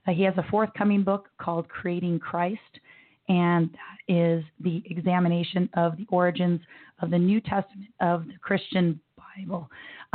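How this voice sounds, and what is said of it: Hoarse, strained voice from laryngitis. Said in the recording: “laryngitis”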